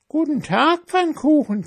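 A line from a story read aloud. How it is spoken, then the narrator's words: Mouse squeaking. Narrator (German): quiekte die Maus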